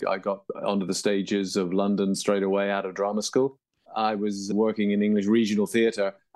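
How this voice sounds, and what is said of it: English accent. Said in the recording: “as you can tell by my accent, I grew up in England”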